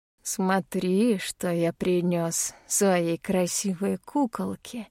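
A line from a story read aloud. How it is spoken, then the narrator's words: Affectionate, sinister tone. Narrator (Russian): говорит он ласково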